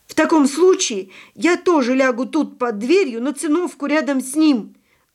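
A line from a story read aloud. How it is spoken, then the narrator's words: Shouting. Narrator (Russian): крикнул Павлик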